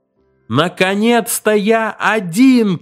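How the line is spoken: Shouting. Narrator (Russian): крикнул

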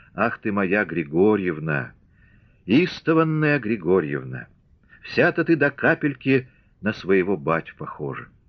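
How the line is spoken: Joyful whisper, laughing and crying. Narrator (Russian): Наталья, смеясь и плача, радостно шептала

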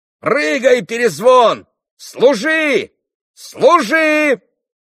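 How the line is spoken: Excited yell. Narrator (Russian): Завопил Коля, вскочив с места

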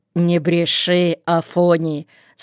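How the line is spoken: Stern old man. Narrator (Russian): строго сказал старик

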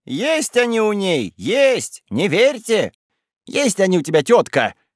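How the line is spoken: Shout. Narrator (Russian): крикнула она Степаниде

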